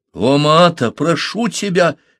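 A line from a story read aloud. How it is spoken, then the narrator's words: Exclaiming. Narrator (Russian): воскликнул Парсел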